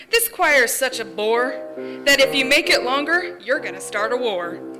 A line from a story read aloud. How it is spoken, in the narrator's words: One member stood and cried